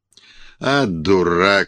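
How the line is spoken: Angry curt retort. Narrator (Russian): сердито бросил владыка

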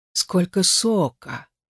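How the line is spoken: Purring tone. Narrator (Russian): говорит он каким-то мурлыкающим тоном

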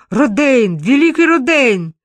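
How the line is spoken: Shout over indignant cries. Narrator (Russian): перекрывая негодующие возгласы, Бурдель крикнул

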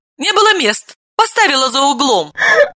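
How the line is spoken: Laughing. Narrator (Russian): рассмеялась Далила

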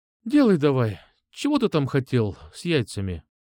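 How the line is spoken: Sigh. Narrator (Russian): Вздохнула

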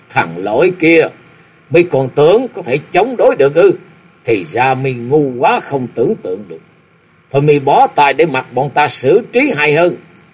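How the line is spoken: Loud laughter. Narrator (Vietnamese): Thiên Diện Hồ Xài Sinh Sơn cười lớn

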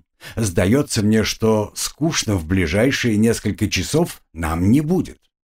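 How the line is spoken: Muttered through teeth. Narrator (Russian): процедил Монброн

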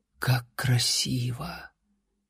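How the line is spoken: Barely audible whisper. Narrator (Russian): Лайла еле слышно прошептала

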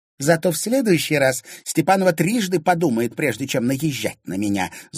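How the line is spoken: Spiteful. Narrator (Russian): злобно сказала Поветруля

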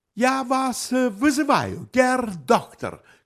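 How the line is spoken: Shout trembling with anger. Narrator (Russian): крикнул, дрожа от злости

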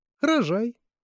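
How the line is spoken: Sudden female remark. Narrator (Russian): вдруг сказала Марианна

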